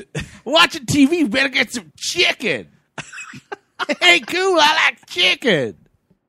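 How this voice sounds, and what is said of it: Imitates a character's voice. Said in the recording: “that impression”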